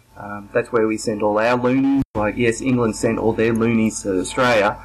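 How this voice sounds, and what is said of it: Australian accent. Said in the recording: “what's the deal with the accent”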